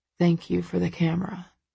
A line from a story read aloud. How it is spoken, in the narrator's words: he murmurs